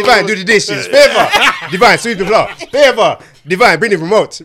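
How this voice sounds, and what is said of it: Put-on Nigerian accent. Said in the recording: “How do you say that with a Nigerian accent?”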